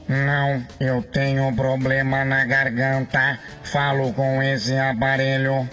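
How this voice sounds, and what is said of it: Robotic, nasal voice. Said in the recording (Portuguese): “Tá imitando o Robocop, Fanho?”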